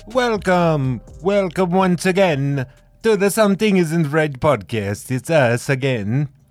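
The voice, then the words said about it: Put-on vaguely foreign cartoon accent. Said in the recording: “What accent is that? ... It sounds like someone from like Transylvania. ... I was trying to sound like Bobby from Jimmy Neutron. He's the only foreign exchange student. ... Jamaica.”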